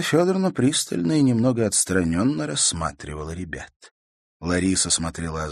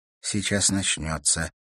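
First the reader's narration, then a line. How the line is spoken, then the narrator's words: Quiet. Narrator (Russian): тихо произнесла она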